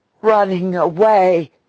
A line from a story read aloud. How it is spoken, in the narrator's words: he gasped